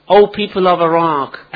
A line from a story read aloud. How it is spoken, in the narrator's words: He called out at the top of his voice